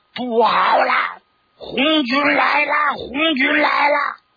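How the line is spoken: Shouting. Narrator (Chinese): 还有人高喊

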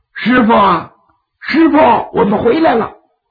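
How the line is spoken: Shouting. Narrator (Chinese): 就喊

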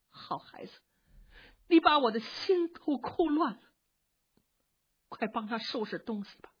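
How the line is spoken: Crying and anxious. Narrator (Chinese): 一边哭一边着急，擦着眼泪…说

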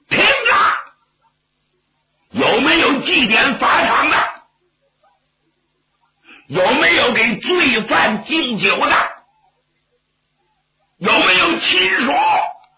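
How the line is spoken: Shouting. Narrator (Chinese): 有人冲寺外高喊

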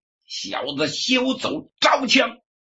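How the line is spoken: Impatient roar. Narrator (Chinese): 丁彦平有点等不及了，大吼了一声

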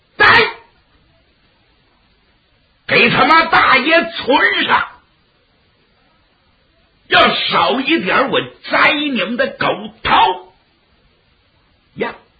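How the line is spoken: Shouting. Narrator (Chinese): 园门那儿有人喊了一嗓

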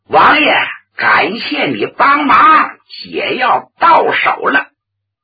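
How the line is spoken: Shout. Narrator (Chinese): 他喊了一嗓子

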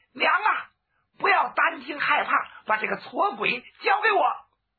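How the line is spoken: Girl shouting while running. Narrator (Chinese): 这姑娘一边外边跑，一边嘴里喊

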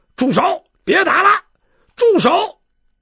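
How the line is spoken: Repeated shouting. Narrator (Chinese): 周中英在旁边连连的叫

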